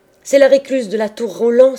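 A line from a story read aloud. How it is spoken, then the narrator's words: Exclaimed with wild laughter. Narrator (French): s'écrièrent-ils avec des rires désordonnés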